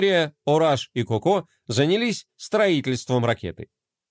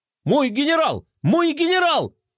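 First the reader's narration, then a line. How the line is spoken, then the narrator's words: Breathless yell. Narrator (Russian): заорал запыхавшийся Мелкотрон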